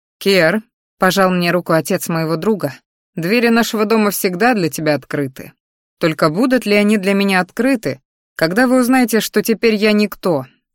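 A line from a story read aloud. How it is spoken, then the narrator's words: Strained grunt through pain. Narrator (Russian): Хмыкнул, едва держа лицо, так как спина не желала проходить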